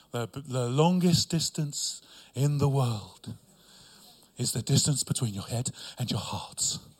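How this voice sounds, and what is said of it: Funny put-on accent. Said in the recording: “That's why I said it with a funny accent”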